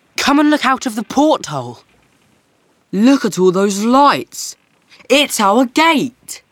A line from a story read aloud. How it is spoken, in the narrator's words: shouted Alex